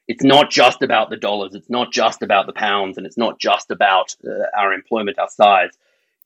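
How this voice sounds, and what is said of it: Australian accent. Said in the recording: “My accent reveals I'm Australian.”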